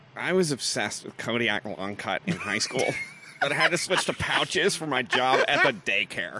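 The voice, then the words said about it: Slides into Valley Girl voice. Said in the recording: “you turned into a, like, Valley Girl at the end of that”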